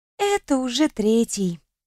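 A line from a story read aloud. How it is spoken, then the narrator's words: Sighing. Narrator (Russian): вздохнула Кьяра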